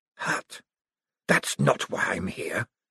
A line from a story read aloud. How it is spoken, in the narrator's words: hissed the dark figure